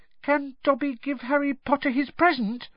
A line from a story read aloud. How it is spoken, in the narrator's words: he squeaked tentatively